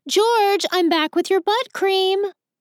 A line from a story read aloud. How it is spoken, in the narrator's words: shouts